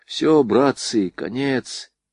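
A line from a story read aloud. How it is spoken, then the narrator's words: Quiet. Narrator (Russian): тихо проговорил Бабкин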